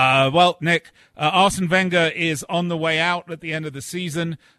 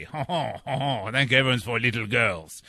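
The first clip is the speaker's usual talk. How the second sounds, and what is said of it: Silly put-on French accent. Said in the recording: “a silly French accent ... we will all sound like Maurice Chevalier”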